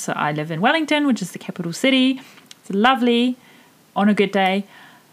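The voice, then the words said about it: A bit of a funny accent. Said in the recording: “why I sound the way I do. It's a bit of a funny accent”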